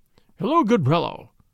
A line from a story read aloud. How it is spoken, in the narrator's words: quoth he in a jovial voice